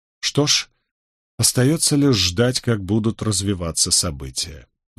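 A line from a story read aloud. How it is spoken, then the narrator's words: Sighing. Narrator (Russian): вздохнул Роберт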